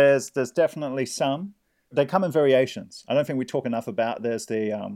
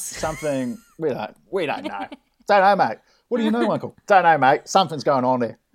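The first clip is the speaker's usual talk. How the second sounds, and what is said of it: Put-on Australian accent. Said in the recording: “You've got to really say it with an Australian accent.”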